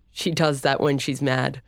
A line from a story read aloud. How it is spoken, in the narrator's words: Storm chuckled